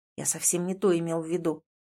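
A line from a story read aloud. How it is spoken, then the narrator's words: Very quiet speech. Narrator (Russian): тихо-тихо говорю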